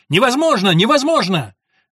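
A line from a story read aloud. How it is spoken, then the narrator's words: Shouting, losing control. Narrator (Russian): Джек не выдержал и тоже закричал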